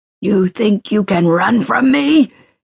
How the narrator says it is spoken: bellowed, his words echoing to the rafters, chilling her soul

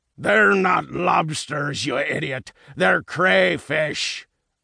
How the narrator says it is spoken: a voice bellowed

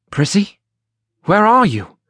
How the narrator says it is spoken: Gerard loudly whispered

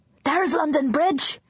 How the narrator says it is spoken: Luca cried

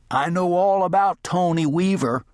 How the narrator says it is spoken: Carter called out

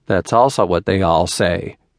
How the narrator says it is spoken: Tristan interrupted with a little laugh

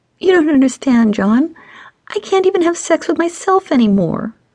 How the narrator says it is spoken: Stacy whimpered

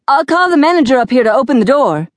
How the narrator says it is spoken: the police officer yelled

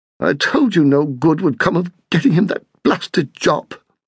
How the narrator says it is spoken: his mother spluttered

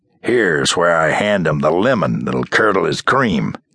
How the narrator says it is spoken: Werther muttered to Drew

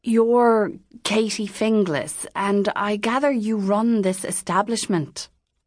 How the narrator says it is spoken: the priest said nervously

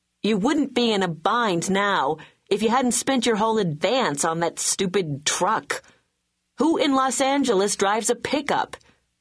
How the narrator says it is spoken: shouting

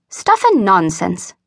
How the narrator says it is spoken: mused Miss Terry scornfully

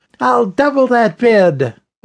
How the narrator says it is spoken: a woman of about 50 called out

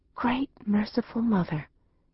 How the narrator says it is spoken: breathed with reverence

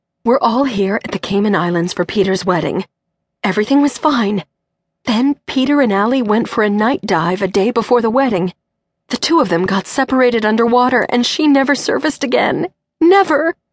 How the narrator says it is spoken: Cindy gasped

